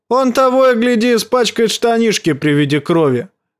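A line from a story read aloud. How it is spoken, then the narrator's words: Taunting shout. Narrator (Russian): крикнул Чет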